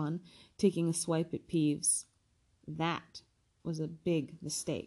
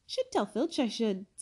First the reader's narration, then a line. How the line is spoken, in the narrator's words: said Peeves in a saintly voice